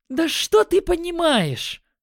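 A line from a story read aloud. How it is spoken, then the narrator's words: Flushed angry exclamation. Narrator (Russian): воскликнула Магиня, ее лицо стало красным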